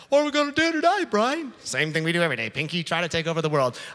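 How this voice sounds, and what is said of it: Pinky and the Brain impression. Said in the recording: “pinky in the brain statement ... that was a pretty good impression.”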